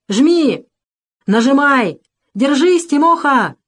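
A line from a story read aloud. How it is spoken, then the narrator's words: Crowd of men shouting. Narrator (Russian): кричали мужики, окружившие лавку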